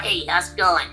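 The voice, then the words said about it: Cartoon character voice. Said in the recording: “And then we have Schuster's voice, dog.”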